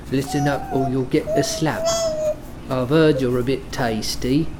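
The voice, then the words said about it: Put-on Cockney-style British accent. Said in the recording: “maybe I can do accents. That was fucking on point. ... That Cockney accent? ... It's that really cool British sounding one. ... the all the Snatch and Lock, Stock and Two Smoking Barrels accent.”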